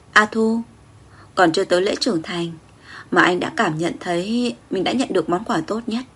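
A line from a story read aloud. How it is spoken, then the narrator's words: Tender murmur. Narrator (Vietnamese): Hàng mi dài của anh khẽ run, che giấu ánh mắt ngập tràn sự quyến luyến, lẩm bẩm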